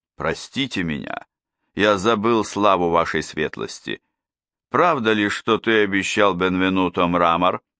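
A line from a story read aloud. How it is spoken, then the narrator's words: Forcing a calm tone. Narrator (Russian): Бенвенуто произнес, стараясь говорить спокойно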